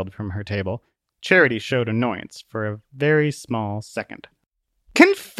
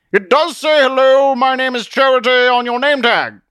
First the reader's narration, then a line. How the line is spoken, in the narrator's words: Zealot shouted from behind his table